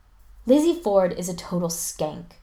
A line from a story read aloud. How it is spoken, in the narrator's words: Spencer says, with a huge sigh